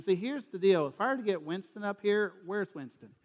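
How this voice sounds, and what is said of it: Southern US accent. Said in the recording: “especially that accent ... Everybody heard my accent. And if y'all think my accent is bad now”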